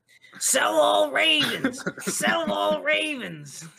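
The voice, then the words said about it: Imitates another person's voice. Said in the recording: “your Jake impression”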